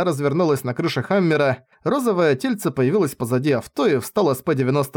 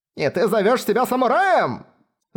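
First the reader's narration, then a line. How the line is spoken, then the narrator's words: Screaming. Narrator (Russian): завопила Питохо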